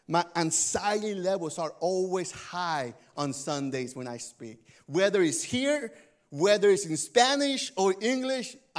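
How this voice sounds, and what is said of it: Noticeable non-native English accent. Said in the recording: “Would they understand what this guy is saying with his accent?”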